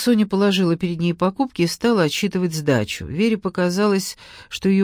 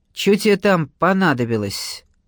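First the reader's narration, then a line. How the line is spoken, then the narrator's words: Rough croak. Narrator (Russian): грубо прокаркали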